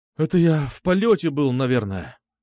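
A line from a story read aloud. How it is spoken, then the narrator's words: Breathed out. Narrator (Russian): выдохнул я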